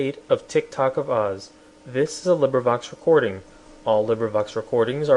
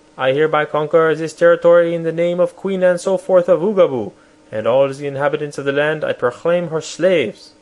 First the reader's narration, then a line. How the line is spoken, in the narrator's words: he cried in a loud voice